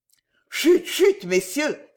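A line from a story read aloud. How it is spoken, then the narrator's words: Exclaiming. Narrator (French): s'écria M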